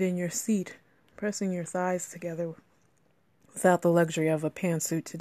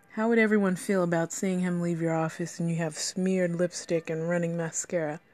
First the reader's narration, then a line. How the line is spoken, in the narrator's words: He chuckled at your quick li- reply